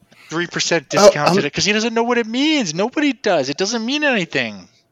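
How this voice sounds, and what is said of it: Loud New Jersey accent. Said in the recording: “you talk in your New Jersey accent and you say things loudly”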